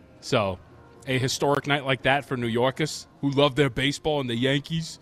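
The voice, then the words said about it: Poor put-on New York accent. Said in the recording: “There's a terrible New York accent”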